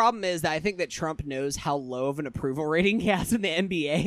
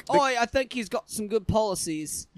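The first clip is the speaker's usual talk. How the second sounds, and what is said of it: Put-on Australian accent. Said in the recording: “That's my Australian accent.”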